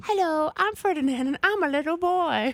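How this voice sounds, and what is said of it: Little boy puppet character voice. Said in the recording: “what's the voice you do for your puppet? ... Your marionette again.”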